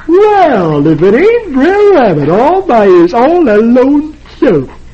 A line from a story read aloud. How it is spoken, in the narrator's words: Brer Fox on shore says cheerfully